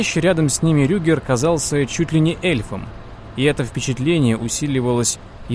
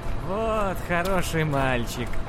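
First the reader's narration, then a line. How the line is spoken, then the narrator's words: Cooing. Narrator (Russian): ворковал Рюгер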